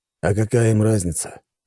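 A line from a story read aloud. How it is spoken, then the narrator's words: Sighing. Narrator (Russian): вздохнул он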